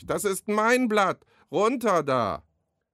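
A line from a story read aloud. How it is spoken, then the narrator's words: Calling across the pond. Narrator (German): ruft Freddy über den Teich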